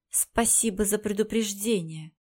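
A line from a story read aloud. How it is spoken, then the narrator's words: Through gritted teeth. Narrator (Russian): процедила Тарелла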